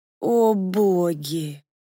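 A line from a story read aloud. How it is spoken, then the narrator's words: Breathed out. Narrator (Russian): выдохнула я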